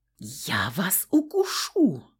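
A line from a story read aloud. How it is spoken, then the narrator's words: Terrified whisper. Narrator (Russian): прошептала в ужасе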